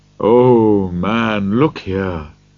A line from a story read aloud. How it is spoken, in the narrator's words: said the Spirit sadly